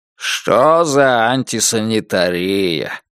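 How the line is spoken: Grumbling. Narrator (Russian): проворчал тот

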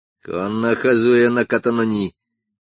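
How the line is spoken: Gloomy. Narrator (Russian): Исигуро мрачно произнес

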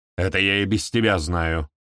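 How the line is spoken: Snapped. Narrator (Russian): огрызнулась Танит Агра

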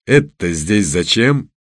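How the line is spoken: Barked. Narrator (Russian): рявкнул он

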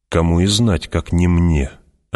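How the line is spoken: Conciliatory. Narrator (Russian): отвечал Стилгар примиряющим тоном

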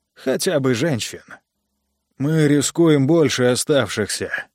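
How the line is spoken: Tired. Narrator (Russian): устало сказал Джо

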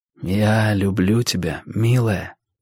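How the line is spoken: Whispered. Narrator (Russian): прошептал я

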